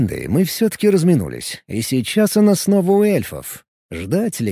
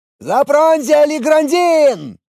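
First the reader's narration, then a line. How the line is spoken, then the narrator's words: Hobbit shouting. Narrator (Russian): крикнул один из хоббитов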